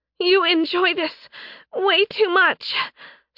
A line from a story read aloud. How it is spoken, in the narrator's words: Sen gasped